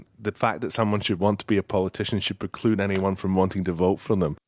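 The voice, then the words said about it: Scottish accent impression. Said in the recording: “Definitely Scottish accent.”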